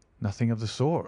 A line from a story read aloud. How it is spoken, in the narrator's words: I answered